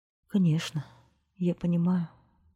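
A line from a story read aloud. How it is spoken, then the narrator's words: Sad reply. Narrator (Russian): печально ответила принцесса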